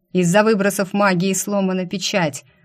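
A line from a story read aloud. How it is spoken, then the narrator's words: Thundering amplified voice. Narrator (Russian): прогремел голос Анара, усиленный настолько, что он буквально вбивался в сознание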